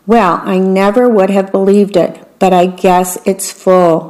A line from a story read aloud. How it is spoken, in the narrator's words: Mama said